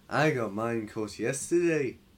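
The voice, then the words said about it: Put-on accent imitating another person. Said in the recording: “accent? That was terrible. ... No, it was pretty good.”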